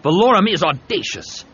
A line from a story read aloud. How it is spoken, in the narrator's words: Havoc said angrily